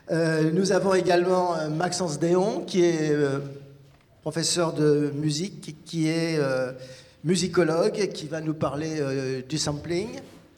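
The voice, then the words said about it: Speaks French with an accent. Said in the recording (French): “Je m'excuse pour mon accent.”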